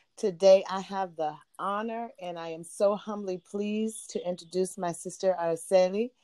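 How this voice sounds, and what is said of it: Hoarse voice. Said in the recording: “Excuse me, I'm a little hoarse today.”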